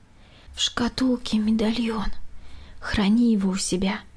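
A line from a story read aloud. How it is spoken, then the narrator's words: Quiet. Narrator (Russian): снова тихо заговорила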